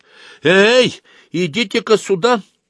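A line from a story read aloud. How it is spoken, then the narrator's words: Shouted. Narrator (Russian): крикнула Аглая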